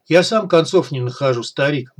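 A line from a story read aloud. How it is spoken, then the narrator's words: Gloomy. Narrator (Russian): мрачно произнес Логвинов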